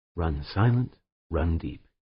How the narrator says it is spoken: whispered

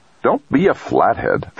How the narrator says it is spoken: Trumbull snapped

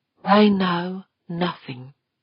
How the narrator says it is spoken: Westfall said calmly

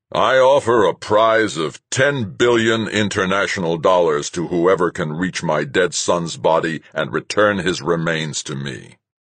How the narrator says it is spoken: My father hesitated for a dramatic moment, then said in a much stronger voice

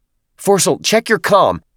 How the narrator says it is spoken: Jenkins shouted

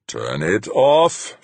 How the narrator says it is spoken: Fuchs growled

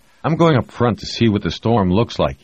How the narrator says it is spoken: he said

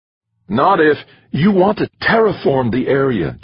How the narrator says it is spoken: Jamie said, almost hissing the words

